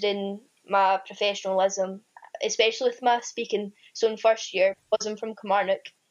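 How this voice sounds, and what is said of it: Strong Scottish accent. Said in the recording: “I have a quite strong Scottish accent and the slang we use is like really strong”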